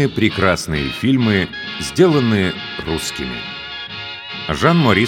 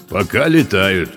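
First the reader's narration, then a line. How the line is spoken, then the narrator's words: Low booming voice. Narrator (Russian): прогудел низкий голос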